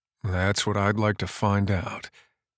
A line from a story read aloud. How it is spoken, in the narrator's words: Jet replied dryly